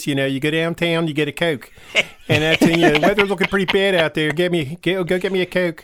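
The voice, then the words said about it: Put-on Baltimore accent. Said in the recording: “unless you want to do the whole thing in Baltimoreese, which is where I'm from, and that's because you talk like this.”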